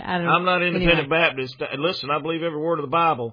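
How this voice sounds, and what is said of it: Thick Southern American accent. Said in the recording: “I'm putting on my thickest Southern accent when I do this radio broadcast”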